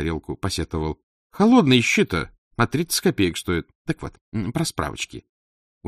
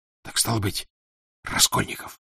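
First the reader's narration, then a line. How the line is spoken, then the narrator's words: Whisper. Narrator (Russian): шепнул Александр Григорьевич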